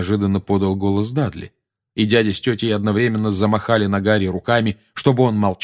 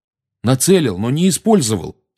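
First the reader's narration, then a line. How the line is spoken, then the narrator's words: Angry. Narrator (Russian): сердито начал Гарри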